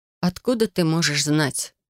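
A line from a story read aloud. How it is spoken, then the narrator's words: Grumbled. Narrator (Russian): пробурчала я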